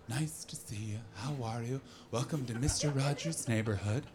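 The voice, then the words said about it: Soft whispery imitation of another person. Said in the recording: “he always talked like this, like, just ... a bit of a rapey whisper”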